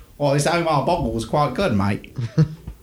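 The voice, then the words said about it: Poor put-on Australian accent. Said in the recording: “That's not a good Aussie accent. ... that particular accent that you so perfectly encaptured there.”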